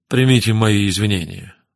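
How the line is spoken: Weary tone. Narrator (Russian): произнес он утомленным тоном

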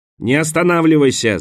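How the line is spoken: Shouting. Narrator (Russian): закричал Харпер

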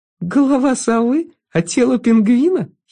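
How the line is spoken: Girl giggling. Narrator (Russian): хихикнула девочка

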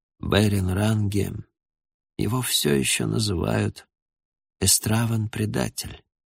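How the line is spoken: Hoarse. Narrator (Russian): Он хрипло проговорил

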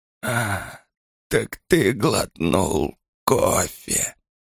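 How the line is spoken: Nearly silent rasp. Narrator (Russian): Почти беззвучно прохрипела она

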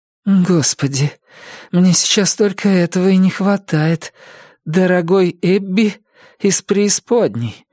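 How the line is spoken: Hoarse low voice. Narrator (Russian): высказалась она вслух, и ее собственный голос, хриплый и низкий

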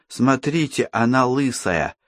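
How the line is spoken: Boy whispering. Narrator (Russian): прошептал один из мальчиков

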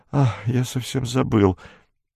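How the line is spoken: Barely audible. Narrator (Russian): едва слышно сказал

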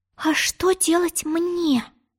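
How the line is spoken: Bewildered whisper. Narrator (Russian): растерянно прошептала Алиса

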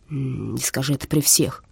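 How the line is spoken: Grumbling. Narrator (Russian): проворчал Стах

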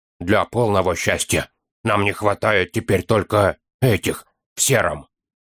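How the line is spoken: Hissed into an ear. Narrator (Russian): прошипел гном на ухо Фолка

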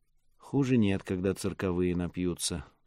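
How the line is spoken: Sighing. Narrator (Russian): вздохнула Мира

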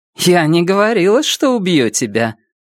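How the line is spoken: Dry smirking. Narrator (Russian): Она, сухо усмехнувшись, сказала

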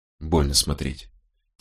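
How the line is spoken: Quiet. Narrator (Russian): тихо проговорила она

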